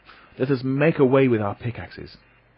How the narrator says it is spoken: cried my uncle

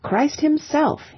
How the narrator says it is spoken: he cried

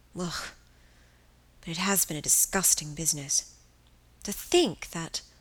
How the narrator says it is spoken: She sighed

